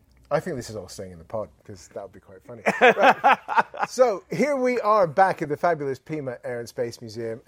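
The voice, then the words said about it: English accent. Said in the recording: “With the English accent”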